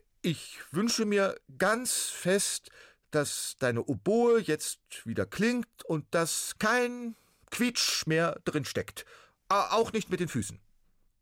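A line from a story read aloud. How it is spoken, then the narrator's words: Loud and clear. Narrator (German): sagte er laut und deutlich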